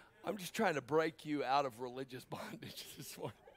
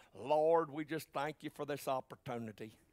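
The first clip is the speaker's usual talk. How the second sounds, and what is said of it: Put-on Southern accent. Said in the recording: “you kind of say it with a southern accent.”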